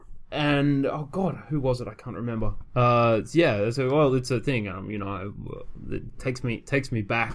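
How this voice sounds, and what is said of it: Australian accent. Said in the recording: “you guys are really Australian... You sound Australian.”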